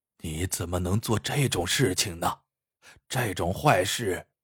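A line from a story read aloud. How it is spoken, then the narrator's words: Stunned old man muttering. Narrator (Chinese): 老人也愣住了，嘴里喃喃的说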